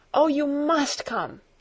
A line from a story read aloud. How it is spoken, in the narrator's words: called out